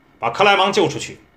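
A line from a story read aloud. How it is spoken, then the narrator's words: Shouting. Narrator (Chinese): 他喊道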